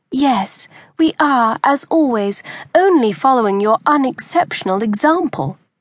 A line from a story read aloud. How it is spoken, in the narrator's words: Maria added sweetly